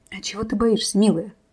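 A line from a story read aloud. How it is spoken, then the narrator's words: Whispered into ear. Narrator (Russian): прошептал Рис ей на ушко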